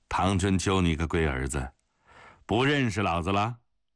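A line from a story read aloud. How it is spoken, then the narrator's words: Old man laughing. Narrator (Chinese): 老头子冲他哈哈一笑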